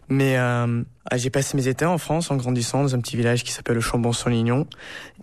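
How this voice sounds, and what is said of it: Slight American accent in French. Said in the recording (French): “mon français n'est pas parfait. J'ai un petit accent américain”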